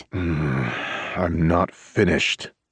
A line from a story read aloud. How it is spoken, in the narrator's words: bites out through gritted teeth